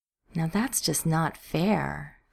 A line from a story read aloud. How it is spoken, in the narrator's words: she drawled